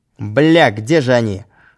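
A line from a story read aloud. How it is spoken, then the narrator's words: Shouted. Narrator (Russian): крикнул Володя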